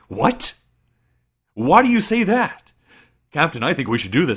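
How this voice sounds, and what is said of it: Shouting, imitates another person's voice. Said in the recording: “he also shouts half of his lines ... why are you yelling?”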